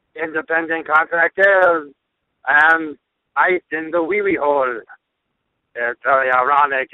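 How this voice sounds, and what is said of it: Exaggerated French accent. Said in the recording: “because I am French. You hear my outrageous accent?”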